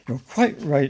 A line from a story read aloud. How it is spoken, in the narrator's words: exclaimed Paddington excitedly